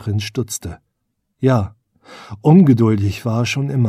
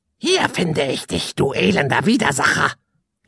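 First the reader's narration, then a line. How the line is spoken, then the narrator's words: Croaked from above. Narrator (German): krächzte eine Stimme von oben herab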